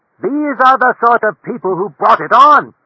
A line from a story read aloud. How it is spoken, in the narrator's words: she shouted